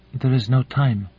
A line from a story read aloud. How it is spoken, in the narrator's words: said, breaking the silence rather timidly